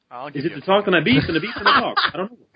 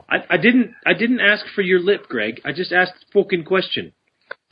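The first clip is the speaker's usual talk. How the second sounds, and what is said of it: Put-on English Geordie accent. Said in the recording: “I love that English accent there. ... It's like a bit of a Geordie there. ... Pretty good. ... That's proper English.”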